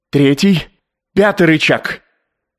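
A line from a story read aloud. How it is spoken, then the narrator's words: Wild cry. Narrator (Russian): Губерман дико вскрикнул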